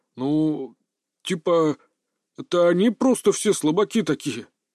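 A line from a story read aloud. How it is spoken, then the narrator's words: Uncertain objection. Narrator (Russian): неуверенно возразил Сузуму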